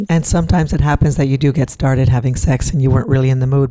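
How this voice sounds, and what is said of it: Deep, sexy voice. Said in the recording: “that deep, sexy voice of yours”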